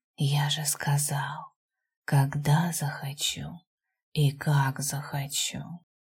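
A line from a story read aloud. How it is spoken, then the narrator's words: Hot close whisper. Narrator (Russian): раздался возле уха горячий шепот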